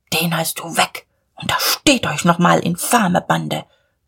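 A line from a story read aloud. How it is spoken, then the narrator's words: Muttering. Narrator (German): murmelte Diederich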